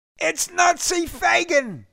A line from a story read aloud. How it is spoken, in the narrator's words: one of them yelled